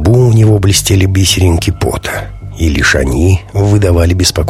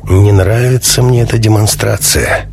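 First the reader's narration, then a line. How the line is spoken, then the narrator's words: Gloomy. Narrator (Russian): мрачно произнес товарищ Альфа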